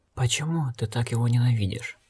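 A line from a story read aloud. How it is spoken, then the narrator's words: Quiet question. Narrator (Russian): негромко спросил Эрл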